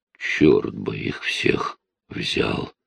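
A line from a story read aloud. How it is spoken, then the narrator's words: Mutter. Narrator (Russian): пробормотал он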